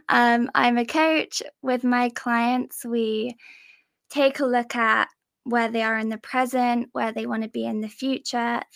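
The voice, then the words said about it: English accent. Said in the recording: “I'm from England. Maybe you can tell by my accent.”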